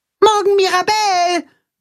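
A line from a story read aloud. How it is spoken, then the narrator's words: Called after someone. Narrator (German): ruft Max ihr nach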